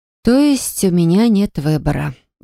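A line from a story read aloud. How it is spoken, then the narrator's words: Sigh. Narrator (Russian): Вздохнула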